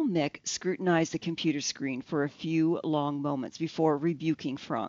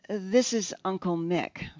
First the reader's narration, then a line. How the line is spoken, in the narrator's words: Frank said